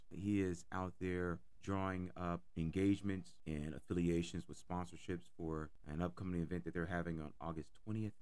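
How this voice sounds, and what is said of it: Hoarse, coarse voice. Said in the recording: “bearing with me and my hoarse voice ... If my voice sounds a little coarse and hoarse”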